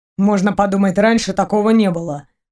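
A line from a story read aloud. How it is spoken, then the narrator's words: Snorting. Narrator (Russian): хмыкнул Максим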